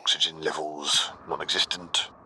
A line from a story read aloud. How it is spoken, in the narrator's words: Kix muttered